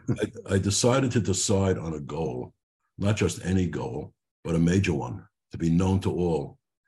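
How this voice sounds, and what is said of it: Brooklyn accent. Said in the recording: “It's my Brooklyn accent. I hope you understand it.”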